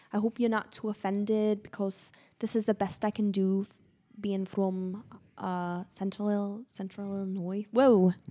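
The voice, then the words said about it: Put-on Scouse accent. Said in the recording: “this is my accent for the show. And it was a hard accent to master, but I think I've got it pretty well... anybody from like Liverpool or Manchester... they're a Scouse accent”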